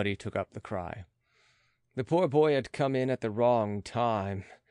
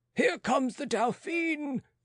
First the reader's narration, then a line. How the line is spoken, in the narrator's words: called out voices